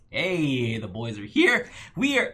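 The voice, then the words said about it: Voice cracks mid-sentence. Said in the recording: “my voice cracked. ... My voice cracked for a second there.”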